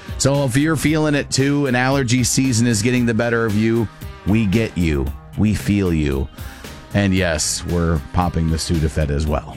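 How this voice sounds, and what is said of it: Scratchy, congested voice. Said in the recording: “You can hear it in my voice that I'm definitely very scratchy and have all the other fun sinus stuff”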